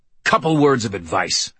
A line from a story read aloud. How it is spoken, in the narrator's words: I growled, my mouth burning with the remains of the garlic I'd stuffed it with